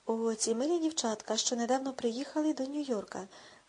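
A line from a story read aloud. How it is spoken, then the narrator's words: Exclaimed. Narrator (Ukrainian): вигукнув Еббот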